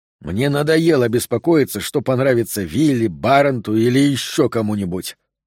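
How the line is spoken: Through clenched teeth. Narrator (Russian): сквозь зубы произнес Харретт

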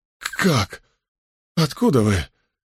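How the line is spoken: Stammering mutter. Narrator (Russian): запинаясь, пробормотал он

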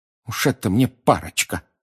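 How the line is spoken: Angry grumble. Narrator (Russian): гневно пробурчала она

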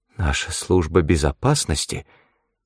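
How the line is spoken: Strained, forced out. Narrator (Russian): выдавил Лотце

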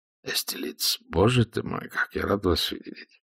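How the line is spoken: Whisper. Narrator (Russian): Гонсалес шепнул

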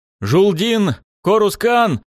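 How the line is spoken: Desperate repeated shouting. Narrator (Russian): отчаянно кричал я снова и снова

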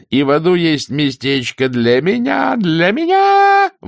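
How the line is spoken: Howling. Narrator (Russian): взвыл Фредди

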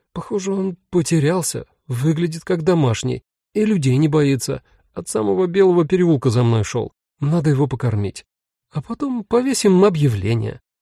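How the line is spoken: Bewildered, disbelieving. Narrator (Russian): Сказала растерянно, словно бы сама себе не веря

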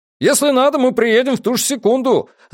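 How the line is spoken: Distant shout. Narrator (Russian): заорал из глубины кабинета глава группы негров по имени Фрэнсис Ланкастер

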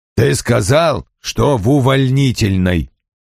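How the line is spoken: Growl. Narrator (Russian): прорычал он

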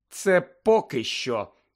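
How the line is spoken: Irritated muttering. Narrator (Ukrainian): роздратовано буркнула Герміона

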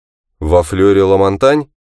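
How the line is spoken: Grim voice. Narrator (Russian): голос звучал мрачно

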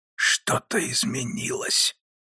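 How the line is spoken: Pained hoarse rasp. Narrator (Russian): прохрипел Нараян сквозь боль

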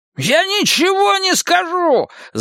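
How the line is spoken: Yelling. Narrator (Russian): завопил Харви

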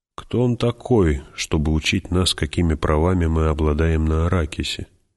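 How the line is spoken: Muttering. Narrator (Russian): Офицер пробормотал

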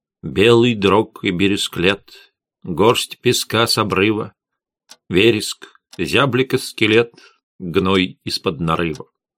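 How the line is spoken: Muttering. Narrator (Russian): бормотала

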